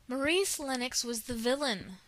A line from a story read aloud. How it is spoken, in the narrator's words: said Anne indignantly